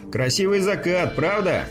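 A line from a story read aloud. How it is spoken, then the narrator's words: Shouted. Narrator (Russian): выкрикнул доктор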